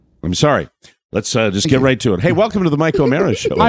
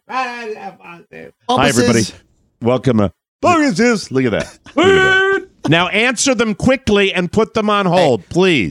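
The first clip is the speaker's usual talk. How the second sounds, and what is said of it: Yelling loudly. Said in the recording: “stop yelling”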